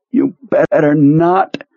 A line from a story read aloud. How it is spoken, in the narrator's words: Pearlie groaned